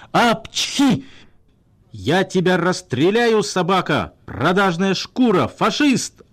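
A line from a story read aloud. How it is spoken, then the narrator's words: Muffled yelling. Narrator (Russian): орал начальник в подушке фальшивой мумии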